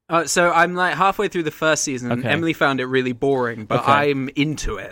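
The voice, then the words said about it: British accent. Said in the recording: “Like me, you were born in the United Kingdom. ... You, out of the two of us, retained your accent.”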